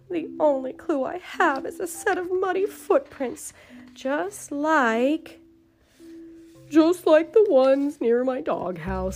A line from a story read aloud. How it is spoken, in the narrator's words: said Peterkins sadly